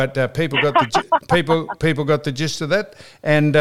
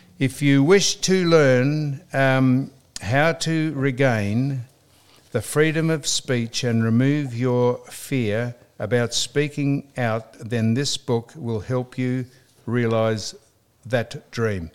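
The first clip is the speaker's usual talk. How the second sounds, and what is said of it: Reading very slowly. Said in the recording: “reading that very slowly”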